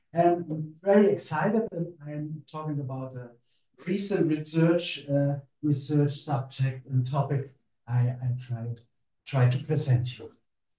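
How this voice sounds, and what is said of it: German-accented English. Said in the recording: “a German accent”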